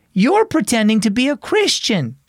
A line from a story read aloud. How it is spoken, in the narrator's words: exclaimed